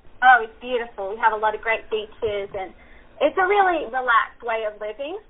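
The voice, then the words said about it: Australian accent. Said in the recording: “your beautiful accent. You're originally from Australia?”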